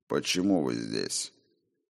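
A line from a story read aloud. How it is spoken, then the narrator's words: Cold, emotionless. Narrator (Russian): Холодно и безо всяких чувств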